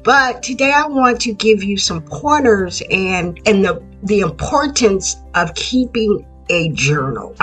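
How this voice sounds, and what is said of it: Raspy, congested voice. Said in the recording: “I'm having a little congestion this morning ... I sound a little raspy”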